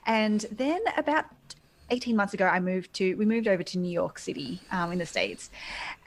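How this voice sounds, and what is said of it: Australian accent. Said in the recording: “starting hospitality in Sydney, in Australia, you might be able to tell from my accent.”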